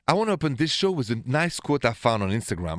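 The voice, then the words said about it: French accent. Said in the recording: “my accent is French. Straight from Paris”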